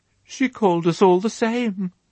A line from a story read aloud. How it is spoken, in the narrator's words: he gulped, and his voice trembled as he answered